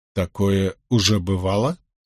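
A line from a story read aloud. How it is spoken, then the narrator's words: Plain. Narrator (Russian): спросил я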